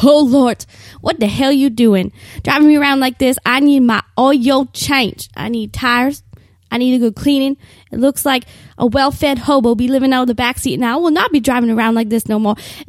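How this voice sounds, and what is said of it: Scolding older woman character voice. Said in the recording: “in a Medea voice”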